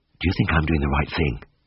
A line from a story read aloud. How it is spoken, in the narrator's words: asked in a whisper